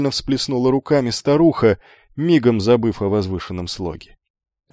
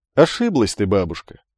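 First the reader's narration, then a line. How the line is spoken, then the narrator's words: Laughing young man. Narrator (Russian): рассмеялся юноша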